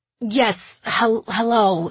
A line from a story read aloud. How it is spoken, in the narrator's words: he stammered